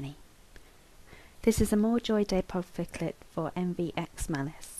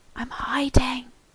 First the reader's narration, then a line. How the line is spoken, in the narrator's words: the boy whispered